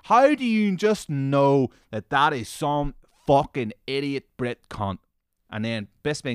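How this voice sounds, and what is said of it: Usual voice. Nothing is said of it.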